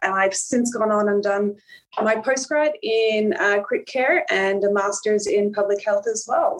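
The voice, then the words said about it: Mild Irish accent, partly Australianized. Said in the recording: “that half-half accent ... there is a few twangs still left of the Irish accent, which definitely gets picked up all the time”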